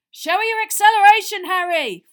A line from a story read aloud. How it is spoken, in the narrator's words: Fred yelled as he whooshed past